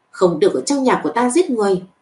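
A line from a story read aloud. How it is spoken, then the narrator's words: Angry scolding. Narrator (Vietnamese): giận dữ mắng mỏ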